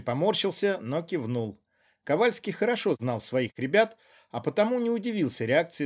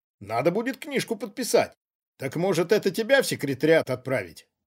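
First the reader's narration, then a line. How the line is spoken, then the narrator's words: Smirking snort. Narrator (Russian): хмыкнул Ковальский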